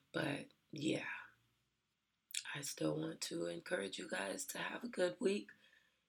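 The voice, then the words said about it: Hoarse, strained voice. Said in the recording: “I'm sorry for the sound of my voice. I lost my voice ... I am still waiting for it to come back.”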